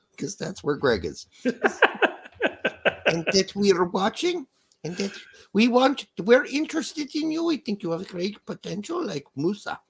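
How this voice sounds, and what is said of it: Grandma German accent, Berhalter impression. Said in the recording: “Berhalter with a German accent ... a grandma German accent”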